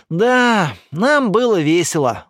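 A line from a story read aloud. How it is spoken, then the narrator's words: Sighing. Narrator (Russian): вздохнула Ника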